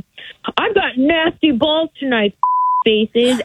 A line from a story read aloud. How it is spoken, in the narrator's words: he yelled